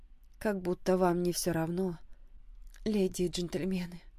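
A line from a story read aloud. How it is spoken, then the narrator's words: Gloomy inner thought. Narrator (Russian): мрачно отвечала она в мыслях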